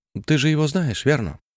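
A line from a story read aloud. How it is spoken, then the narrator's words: Mother, almost bewildered. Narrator (Russian): проговорила мама почти растерянно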